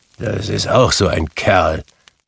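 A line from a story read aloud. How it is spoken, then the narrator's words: Grumbling. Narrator (German): brummte Scrooge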